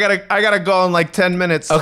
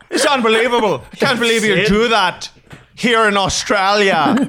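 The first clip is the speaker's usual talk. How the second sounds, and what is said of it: Put-on Australian accent. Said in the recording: “That's clearly my accent is an Australian accent. ... It's a very simple accent to do.”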